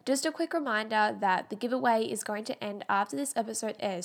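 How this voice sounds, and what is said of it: Congested voice, sounds like a cold. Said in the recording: “I have such bad hay fever since I've been home, so that is why I sound like I have a cold. Not a cold, just hay fever.”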